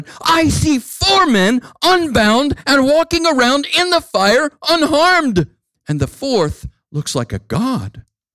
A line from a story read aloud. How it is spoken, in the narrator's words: Nebuchadnezzar shouted